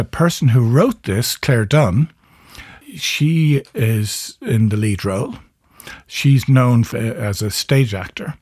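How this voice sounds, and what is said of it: Irish accent. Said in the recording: “wonderful Irish accent”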